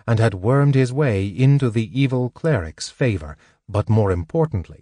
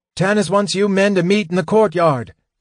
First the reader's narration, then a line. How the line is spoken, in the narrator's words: he cried